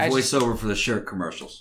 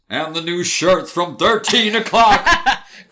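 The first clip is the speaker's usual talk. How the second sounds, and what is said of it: Announcer voice. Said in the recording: “your announcer voice ... Yeah, do my announcer voice.”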